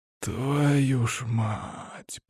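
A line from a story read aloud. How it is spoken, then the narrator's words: Drawn-out drawl. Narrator (Russian): протянул Тимур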